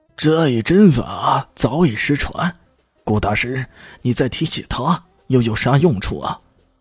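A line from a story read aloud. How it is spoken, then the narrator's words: Questioning. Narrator (Chinese): 随即有人问道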